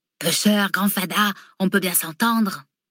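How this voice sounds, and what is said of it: Put-on Provençal French accent. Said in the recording (French): “Il s'essaye à l'accent provençal. ... Ne me parle pas comme un bouliste marseillais”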